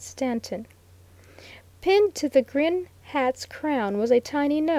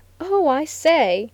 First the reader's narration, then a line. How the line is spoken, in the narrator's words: cried the lawyer delightedly